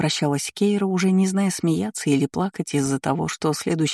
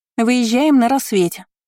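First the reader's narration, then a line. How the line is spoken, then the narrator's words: Woman shouting after someone. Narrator (Russian): крикнула хозяйка покоев уже ей в спину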